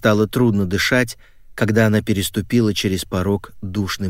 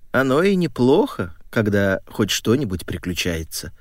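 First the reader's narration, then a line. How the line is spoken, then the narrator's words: Plain. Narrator (Russian): сказала бабушка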